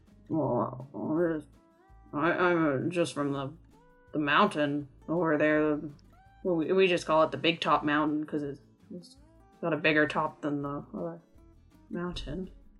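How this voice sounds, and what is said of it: Character voice with an accent. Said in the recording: “I love your accent.”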